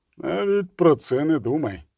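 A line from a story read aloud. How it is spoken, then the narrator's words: Grumbling witcher. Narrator (Ukrainian): Буркнув відьмак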